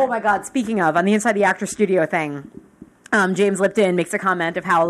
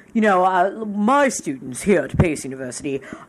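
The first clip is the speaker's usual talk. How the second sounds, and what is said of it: Imitates another person's voice, poorly. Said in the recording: “that's a terrible James Lipton impersonation.”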